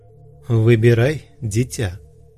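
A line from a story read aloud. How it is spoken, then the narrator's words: Calm tone. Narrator (Russian): спокойным тоном сказал Сейд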